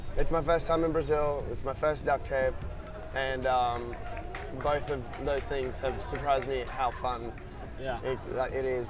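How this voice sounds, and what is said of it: Worn-out, strained voice. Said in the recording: “You can probably tell in my voice. ... the voices get, like mine's also getting shot”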